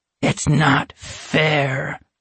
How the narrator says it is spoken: he said in his raspy voice

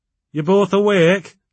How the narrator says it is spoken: he asked, in a thick local accent

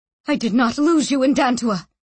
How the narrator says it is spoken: she said fiercely

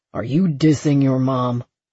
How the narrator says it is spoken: Lucas asked, his tone sharp

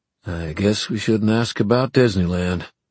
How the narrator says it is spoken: said Julian in a flat voice

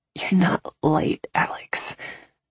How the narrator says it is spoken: I grunted softly

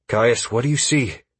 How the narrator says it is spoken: I asked the warlock somewhat nervously

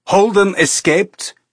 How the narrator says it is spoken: Illich shouted

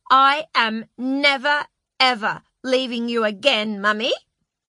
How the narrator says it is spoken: Lulu said fiercely

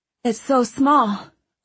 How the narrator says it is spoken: Owen said, panting

